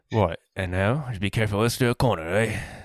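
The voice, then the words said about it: Poor British butler impression. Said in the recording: “That's my British butler impersonation. ... That's terrible.”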